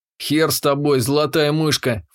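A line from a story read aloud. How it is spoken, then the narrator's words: Snorting. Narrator (Russian): фыркнул я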